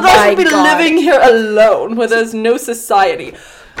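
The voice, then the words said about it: Genteel posh English accent. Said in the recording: “Soul literally feels like velvet after hearing you speak in your genteelly accent ... I am in Downton Abbey right now”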